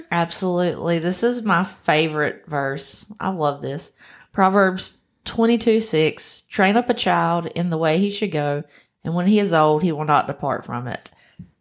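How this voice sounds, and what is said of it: American country accent. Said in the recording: “we have our country accent”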